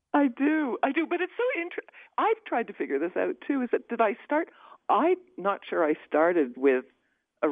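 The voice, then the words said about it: Rich, polished radio voice. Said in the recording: “you have a superb radio voice ... Gin. Cigar.”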